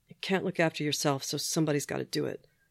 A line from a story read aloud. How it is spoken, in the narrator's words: he muttered after a moment